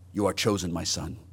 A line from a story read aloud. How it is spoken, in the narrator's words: said, more softly than he ever spoke in life